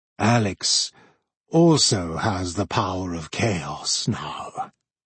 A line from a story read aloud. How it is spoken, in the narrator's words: Master Joseph replied in the same frightening voice